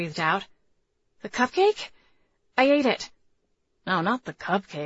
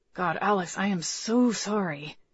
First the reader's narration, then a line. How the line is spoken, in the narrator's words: Tucker breathed